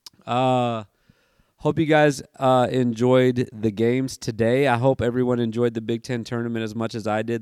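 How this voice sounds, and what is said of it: Tired-sounding voice. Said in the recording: “my voice is a little tired”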